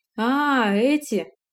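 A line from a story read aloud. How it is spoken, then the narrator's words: Drawn-out drawl. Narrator (Russian): протянул тот самый Волт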